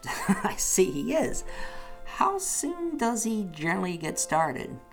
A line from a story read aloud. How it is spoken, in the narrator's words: caught up with her laughter and echoed it heartily